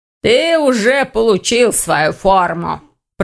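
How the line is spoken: Deep booming voice. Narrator (Russian): пробасила она

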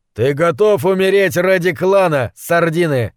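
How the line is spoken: Yelling. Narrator (Russian): заорал Гуталин

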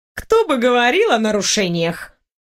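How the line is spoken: Smirking snort. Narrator (Russian): Хмыкнула я

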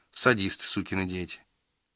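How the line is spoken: Affectionate tone. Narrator (Russian): Ласково проговорил садист, сукин сын

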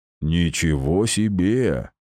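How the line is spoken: Snort. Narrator (Russian): хмыкнул

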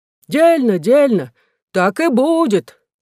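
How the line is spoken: Crowd shouting together. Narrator (Russian): закричали все

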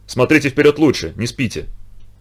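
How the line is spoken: Quiet. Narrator (Russian): Полужный негромко сказал

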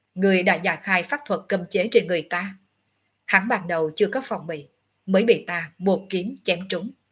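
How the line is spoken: Cold. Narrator (Vietnamese): Ngọc Hư Tử vẫn lạnh lùng

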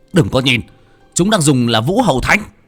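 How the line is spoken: Shouted. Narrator (Vietnamese): Một trong sáu tên hét lên

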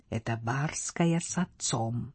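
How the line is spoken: Tense whisper. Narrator (Russian): Панна Рита шепнула Стефе, прикусив губы

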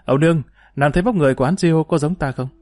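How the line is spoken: Smiling question. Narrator (Vietnamese): Dương Lăng mỉm cười hỏi Ấu Nương

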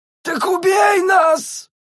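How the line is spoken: Hysterical scream. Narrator (Russian): истерично завопил один из них

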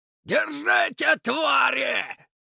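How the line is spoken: Hoarse yelling nobleman. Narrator (Russian): хрипло заорал дворянин

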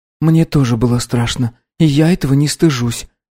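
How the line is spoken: Quiet. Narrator (Russian): тихо сказала Баррингтон

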